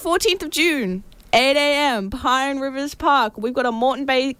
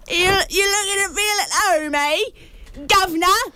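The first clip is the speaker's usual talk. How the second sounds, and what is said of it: Weak put-on British accent. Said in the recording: “If you're a little British person here ... I don't even do my right. I'm going to stop doing the accent.”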